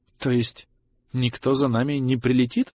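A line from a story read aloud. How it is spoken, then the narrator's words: Utterly dejected question. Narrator (Russian): вконец упавшим голосом спросил Брэндон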